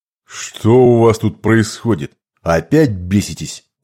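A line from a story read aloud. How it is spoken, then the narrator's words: Menacing question. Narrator (Russian): грозно спросил Базирок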